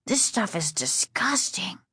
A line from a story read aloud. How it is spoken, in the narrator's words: Casey whispered